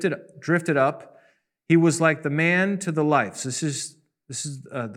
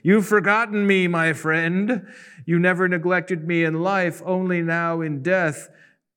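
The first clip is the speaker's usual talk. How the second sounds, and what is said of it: Creepy ghostly character voice. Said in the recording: “I'm trying to do my creepy voice.”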